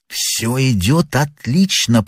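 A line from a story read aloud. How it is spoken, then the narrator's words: Whispered. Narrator (Russian): прошептал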